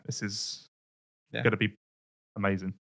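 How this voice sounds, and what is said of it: Flat monotone delivery. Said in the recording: “my really monotone statement”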